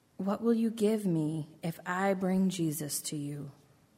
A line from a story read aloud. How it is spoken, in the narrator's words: They whispered to each other